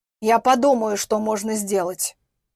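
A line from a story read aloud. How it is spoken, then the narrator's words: Grumbling. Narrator (Russian): проворчал он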